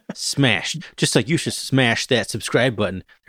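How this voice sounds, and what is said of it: YouTuber-style impression. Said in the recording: “my best YouTuber impression”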